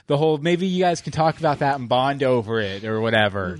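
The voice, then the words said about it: Snarky imitation of a character. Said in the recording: “She's downright snarky ... This is my impression of Lee.”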